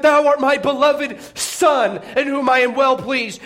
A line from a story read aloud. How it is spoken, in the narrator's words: a voice from heaven cried out and said